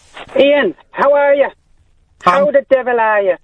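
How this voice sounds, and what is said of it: Put-on Irish accent. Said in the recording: “doing an Irish voice. This is unusual. ... I put on my best Irish accent”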